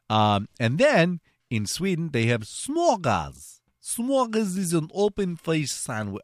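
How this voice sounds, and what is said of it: Put-on Russian accent. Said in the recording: “Why am I doing a Russian accent?”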